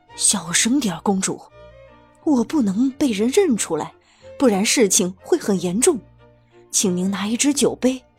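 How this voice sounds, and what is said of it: Low hushed voice. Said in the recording (Chinese): “低声说”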